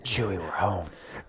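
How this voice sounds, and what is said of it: Harrison Ford impression. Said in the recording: “I'm still Harrison Ford.”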